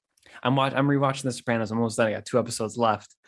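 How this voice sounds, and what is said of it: Sounds a little sick. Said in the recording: “if you listen to my voice, I sound a little sick.”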